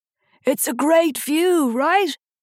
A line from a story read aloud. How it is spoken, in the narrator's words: had shouted above the sound of the wind